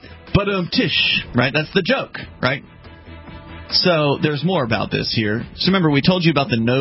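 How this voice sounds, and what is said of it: Usual voice. Nothing is said of it.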